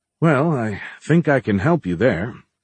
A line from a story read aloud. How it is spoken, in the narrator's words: Kevin sighed